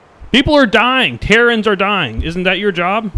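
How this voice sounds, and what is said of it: Yelling, worked-up delivery. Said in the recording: “I'm not sure why I'm yelling at you... I'm a little worked up.”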